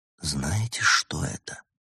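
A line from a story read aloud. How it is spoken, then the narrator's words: Whispered question. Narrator (Russian): шепотом спросил Улисс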